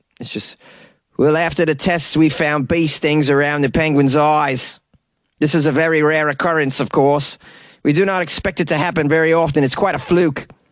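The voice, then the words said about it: Put-on South African accent. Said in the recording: “What's a South African accent?”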